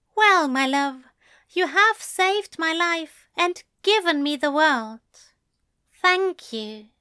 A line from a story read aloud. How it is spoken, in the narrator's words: Alistair said